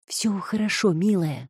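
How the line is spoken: Whisper. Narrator (Russian): прошептала Пиппа

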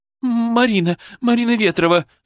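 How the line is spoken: Sobbing. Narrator (Russian): всхлипнула она

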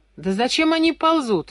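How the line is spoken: Laughing question. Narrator (Russian): Иван Павлович спросил, смеясь, Дима

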